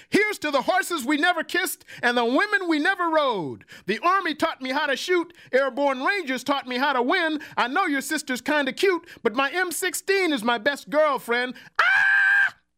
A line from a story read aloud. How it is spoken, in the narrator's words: smiled, sat down noisily on the bar stool next to me and shouted